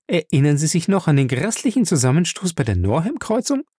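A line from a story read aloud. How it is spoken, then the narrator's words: Giggling. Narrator (German): Ray Bennett kicherte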